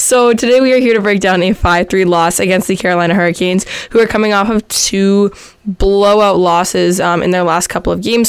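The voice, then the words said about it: Sick, under-the-weather voice. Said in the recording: “as you can probably tell by my voice, I am a little bit under the weather”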